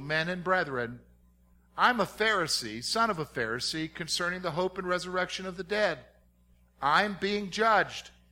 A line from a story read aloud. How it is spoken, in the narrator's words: he cried out in the council